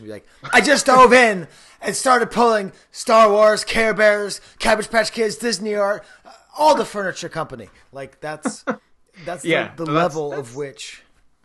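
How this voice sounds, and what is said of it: Imitates another person's distinctive voice. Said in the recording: “he has a very distinctive voice ... I'm not going to do a regular impersonation ... That was the first crack at that. It's pretty good.”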